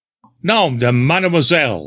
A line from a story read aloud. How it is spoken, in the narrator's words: I exclaimed in astonishment